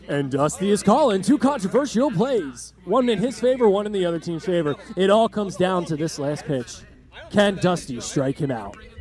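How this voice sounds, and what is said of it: Sports radio announcer voice. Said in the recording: “I should practice my radio. ... how's this for a radio voice?”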